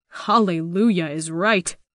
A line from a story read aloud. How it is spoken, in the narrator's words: Baybong says under his breath